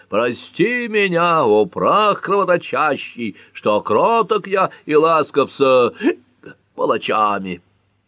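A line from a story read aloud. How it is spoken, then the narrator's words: Yelling. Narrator (Russian): тот продолжал вопить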